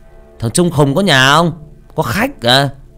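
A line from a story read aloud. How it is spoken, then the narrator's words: Man shouting. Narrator (Vietnamese): Người đàn ông la lên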